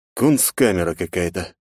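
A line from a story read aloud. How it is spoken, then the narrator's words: Sigh. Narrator (Russian): вздохнул я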